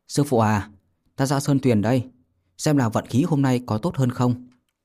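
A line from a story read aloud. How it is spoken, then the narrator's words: Raised voice. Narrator (Vietnamese): cao giọng nói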